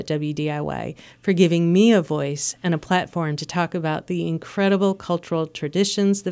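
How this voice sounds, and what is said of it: Midwestern American accent. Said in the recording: “my Midwestern accent”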